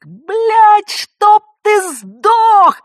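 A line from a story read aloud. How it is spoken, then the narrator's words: Screaming into phone. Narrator (Russian): завопила в трубку Надежда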